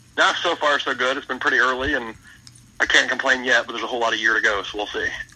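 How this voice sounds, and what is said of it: Rough, congested-sounding voice. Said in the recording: “I've been fighting a cold for a couple days, so I sound rough”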